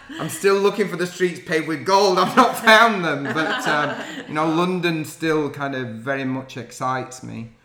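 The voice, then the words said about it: Yorkshire accent. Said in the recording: “I've never lost my Yorkshire accent.”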